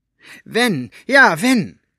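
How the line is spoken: Called out. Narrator (German): rief Elinor

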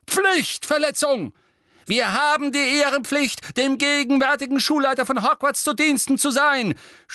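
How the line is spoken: Frail old man shouting. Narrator (German): schrie ein gebrechlich wirkender alter Zauberer

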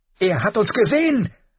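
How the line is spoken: Shrill woman's voice. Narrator (German): sagte die Frau mit schriller Stimme

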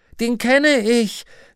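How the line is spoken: Call joined by others. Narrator (German): rief jemand, und andere stimmten ein

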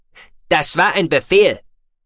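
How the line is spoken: Sharp snapping. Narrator (German): schnauzte Meltonnen den Mann an

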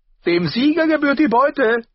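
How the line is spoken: Exclaiming. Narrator (German): rief er aus

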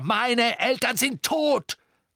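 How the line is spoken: Bellowing. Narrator (German): brüllte Harry

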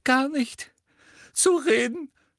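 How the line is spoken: Sobbing. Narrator (German): schluchzte sie

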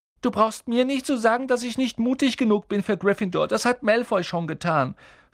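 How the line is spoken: Sobbing. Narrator (German): schluchzte er

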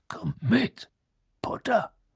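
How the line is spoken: Growl. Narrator (German): knurrte

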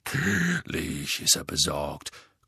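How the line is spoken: Growling. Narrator (German): knurrte Moody

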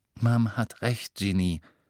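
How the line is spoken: Gentle. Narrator (German): sagte Bill sanft

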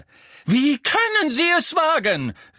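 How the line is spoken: Calling while running. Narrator (German): rief die Gestalt im Laufen

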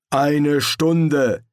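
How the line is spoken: Called out. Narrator (German): rief Lobsang

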